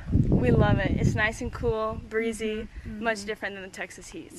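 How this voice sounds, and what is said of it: Southern US accent. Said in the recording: “they have a southern accent, I think ... that is super southern”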